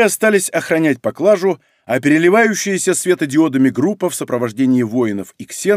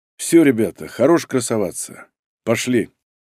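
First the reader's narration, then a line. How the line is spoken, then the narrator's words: Sighing, weary. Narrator (Russian): Разумовский вздохнул и сказал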